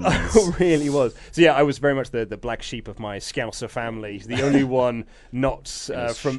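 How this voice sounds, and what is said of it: Plain English accent, not Scouse. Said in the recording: “I did have a Scouse accent when I was a child, but it was bullied out of me at school. ... So I now have this boring accent that I have now. ... I was the Berkshire boy”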